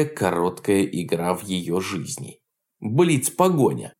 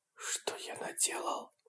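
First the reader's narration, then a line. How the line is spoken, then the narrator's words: Whispered. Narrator (Russian): прошептал Лидин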